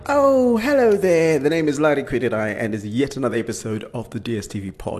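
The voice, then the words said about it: Excited, upbeat voice. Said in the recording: “I'm so excited. You can hear it in my voice, can't you?”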